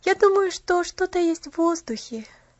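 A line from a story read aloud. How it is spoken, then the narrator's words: Happy sigh. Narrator (Russian): счастливо вздохнула Поллианна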